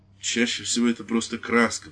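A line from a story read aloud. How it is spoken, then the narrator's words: Priest's conciliatory mutter. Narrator (Russian): пробормотал священник примирительно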